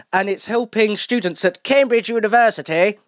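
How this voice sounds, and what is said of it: Posh British accent. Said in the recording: “That was just an archetypal posh British accent”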